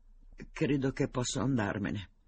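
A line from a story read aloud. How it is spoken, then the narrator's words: Choked voice. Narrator (Italian): disse con voce strozzata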